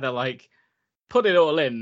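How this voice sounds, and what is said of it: Bad put-on Italian accent. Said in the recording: “That's a terrible accent. It was terrible.”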